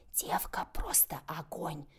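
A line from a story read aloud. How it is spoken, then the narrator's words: Snide whisper. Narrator (Russian): ехидный шепот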